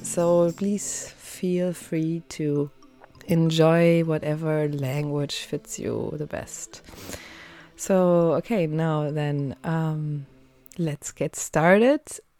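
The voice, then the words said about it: German accent in English. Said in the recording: “I'm a German native speaker, so please accept that I have a German accent.”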